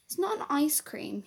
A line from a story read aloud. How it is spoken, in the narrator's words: he squeaked